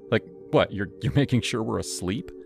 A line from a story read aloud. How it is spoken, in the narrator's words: Leela laughed, a high tinkling sound